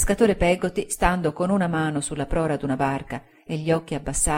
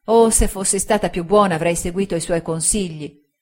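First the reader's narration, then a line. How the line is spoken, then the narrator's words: Girl exclaiming in despair. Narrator (Italian): esclamò la ragazza con disperato rimpianto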